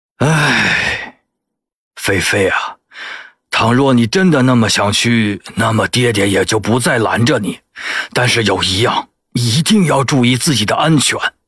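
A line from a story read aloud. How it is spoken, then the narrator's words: Heavy sigh, resigned. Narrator (Chinese): 县令挣扎半晌，最后沉沉叹出一口气来，无奈的说道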